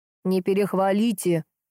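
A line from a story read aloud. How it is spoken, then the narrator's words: Grumbling, secretly pleased and proud. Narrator (Russian): пробурчал Витяй, не смог скрыть явного довольства и гордости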